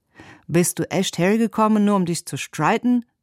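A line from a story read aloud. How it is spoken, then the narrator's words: Called out. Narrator (German): rief er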